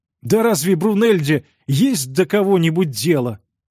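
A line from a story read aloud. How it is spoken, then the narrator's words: Sorrowful exclamation. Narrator (Russian): горестно воскликнул Робинсон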